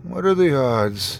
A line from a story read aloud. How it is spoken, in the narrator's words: I muttered